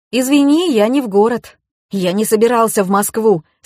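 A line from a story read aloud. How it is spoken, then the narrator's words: Plain. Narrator (Russian): сказал отпрыск Ильи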